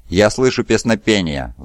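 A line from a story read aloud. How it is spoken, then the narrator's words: Sighing. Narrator (Russian): вздохнул Кустодий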